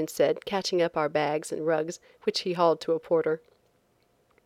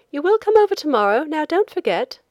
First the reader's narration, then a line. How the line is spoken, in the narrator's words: the young woman on the boat called out